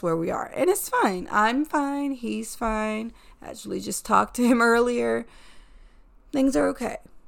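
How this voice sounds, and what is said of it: Slightly raspy, congested voice. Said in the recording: “I had the flu and I just cannot get rid of the congestion. It's just lingering. So if you hear my voice sound a little raspy or if I lose some sound”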